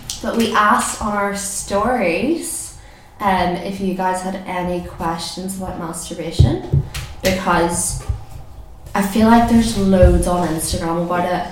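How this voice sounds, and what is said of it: Hoarse, fading voice from flu. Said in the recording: “I'm kind of recovering from the flu and my voice is going”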